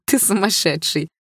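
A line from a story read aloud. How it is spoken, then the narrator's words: Laughing. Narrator (Russian): рассмеялась я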